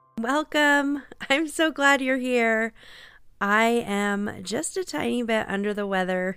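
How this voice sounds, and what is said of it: Congested, nasal sick voice. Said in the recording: “You can probably hear it in my voice. ... I'm just a little congested and apparently it's affecting my voice ... listen to me sound like this”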